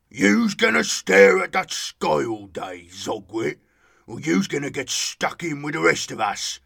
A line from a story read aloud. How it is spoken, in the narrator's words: grunted Big Morg